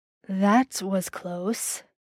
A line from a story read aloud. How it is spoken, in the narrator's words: Dean murmured in his ear